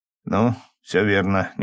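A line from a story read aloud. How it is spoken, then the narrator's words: Uncertain reply. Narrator (Russian): неуверенно отозвался Лёва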